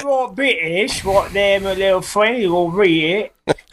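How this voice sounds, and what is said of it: Put-on Cockney accent. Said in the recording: “going with the Cockney accent.”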